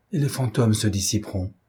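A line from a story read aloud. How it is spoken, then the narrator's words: Shivering murmur. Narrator (French): murmura-t-il, tout frissonnant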